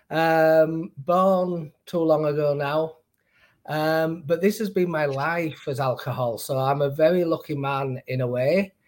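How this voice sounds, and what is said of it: Slight Northern English accent. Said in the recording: “they do tell me I've got a slight accent ... Northern English”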